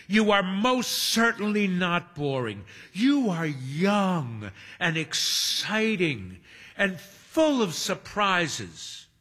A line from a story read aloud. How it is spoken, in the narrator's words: Hermione exclaims